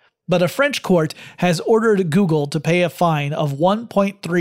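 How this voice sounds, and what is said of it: Usual voice. Nothing is said of it.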